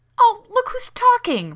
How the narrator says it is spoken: Rodney exclaimed, stung

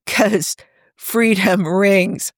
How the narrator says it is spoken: Tony replied with a snort

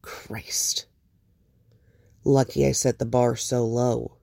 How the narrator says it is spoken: Bruce murmurs, wry

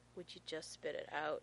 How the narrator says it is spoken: John asks wearily

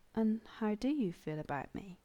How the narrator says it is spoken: Rodney asked, almost as quietly, like he didn't want to break the spell

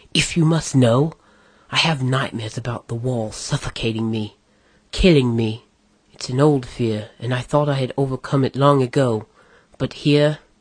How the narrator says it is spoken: Angrily now, the elf hissed

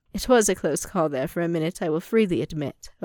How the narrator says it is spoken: Obi-Wan said with a chuckle

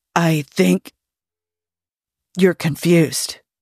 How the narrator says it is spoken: Jim rasped slowly

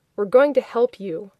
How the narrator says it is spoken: He said firmly

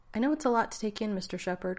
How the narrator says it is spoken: Carter said, her tone amused

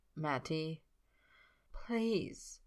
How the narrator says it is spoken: he says it softly

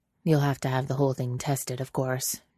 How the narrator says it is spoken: says in an undertone

